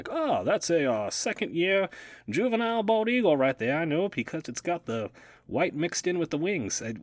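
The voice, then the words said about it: Weird put-on Southern accent. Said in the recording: “Why do I keep doing like some weird southern accent?”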